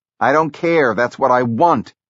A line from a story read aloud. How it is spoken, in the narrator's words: Jobs snapped back